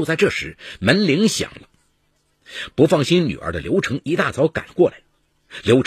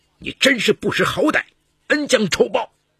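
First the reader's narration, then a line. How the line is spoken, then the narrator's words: Furious roar. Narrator (Chinese): 王国军怒火升腾，冲着女儿的卧室大吼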